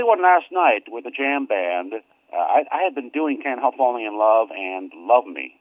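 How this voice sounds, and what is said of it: Usual voice. Nothing is said of it.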